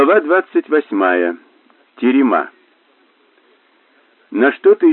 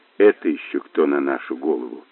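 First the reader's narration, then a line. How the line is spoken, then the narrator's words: Grumbling. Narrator (Russian): проворчал Мазур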